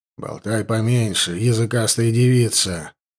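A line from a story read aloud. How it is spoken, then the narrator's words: Gruff old man's mutter. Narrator (Russian): буркнул старый жрец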